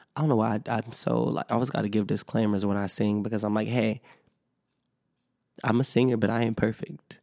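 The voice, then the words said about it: Sick, slightly rough voice. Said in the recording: “I'm still a little sick, so if that sounded a little bad, you can hear the sickness in my voice.”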